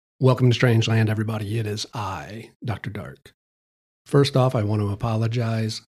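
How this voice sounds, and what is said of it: Slightly sick, rough voice. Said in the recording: “I'm a little under the weather, so if my voice sounds a little bit jacked up”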